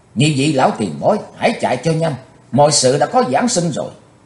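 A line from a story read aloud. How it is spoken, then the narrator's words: Loud shout. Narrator (Vietnamese): Chí Tôn quát to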